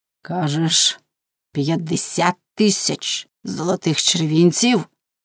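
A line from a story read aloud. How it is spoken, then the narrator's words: Hoarse, barely audible question. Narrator (Ukrainian): хрипко і ледь чутно спитав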